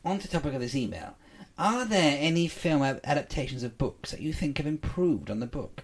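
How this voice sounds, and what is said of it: Speaks with a noticeable accent. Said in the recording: “I'm enjoying your accent.”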